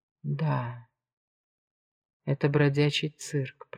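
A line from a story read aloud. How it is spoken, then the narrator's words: Whisper. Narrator (Russian): прошептал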